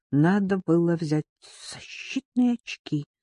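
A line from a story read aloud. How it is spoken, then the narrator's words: Muttered. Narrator (Russian): пробормотала Лайла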